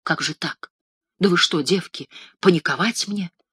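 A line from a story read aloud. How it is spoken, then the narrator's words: Confused, dejected mumbling. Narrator (Russian): растерянно забормотал сникший разом Пантелей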